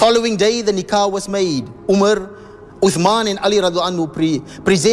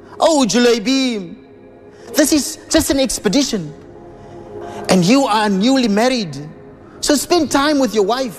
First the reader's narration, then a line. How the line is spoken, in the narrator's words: his father-in-law pleaded with him